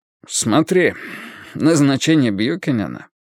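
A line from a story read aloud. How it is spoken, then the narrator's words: Snort, then explaining. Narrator (Russian): хмыкнув, впустился в объяснение Карл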